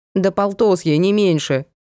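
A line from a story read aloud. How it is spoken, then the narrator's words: Rude, harsh tone. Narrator (Russian): грубо сказала Натка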